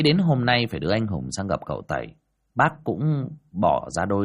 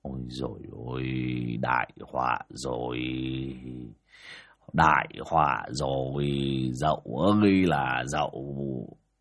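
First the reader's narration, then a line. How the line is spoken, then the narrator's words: Dazed muttering. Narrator (Vietnamese): bác Vó đờ đẫn cả người mà lẩm bẩm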